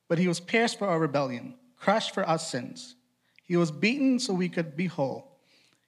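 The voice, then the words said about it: Trinidadian accent while reading aloud. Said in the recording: “I'm from Trinidad, and I grew up in Boston. So I have an accent that comes out when I read.”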